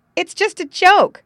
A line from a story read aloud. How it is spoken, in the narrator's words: Tommy exclaimed